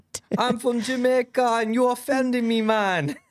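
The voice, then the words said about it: Attempted Jamaican accent. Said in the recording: “I would try to do the accent, and it will not work out”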